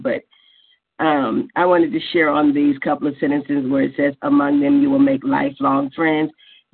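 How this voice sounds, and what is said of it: Sick, unwell-sounding voice. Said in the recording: “I'm a little under the weather this morning, so I sound weird”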